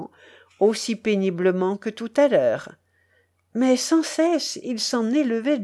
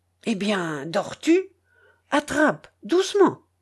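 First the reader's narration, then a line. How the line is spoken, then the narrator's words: Muffled voice. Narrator (French): dit Tchelkash d'une voix assourdie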